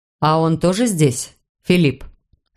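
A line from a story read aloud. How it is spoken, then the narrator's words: Calm even voice, open fury. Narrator (Russian): спросил Рауль очень спокойным и ровным голосом, и я подумала, что он даже не пытается скрыть ярость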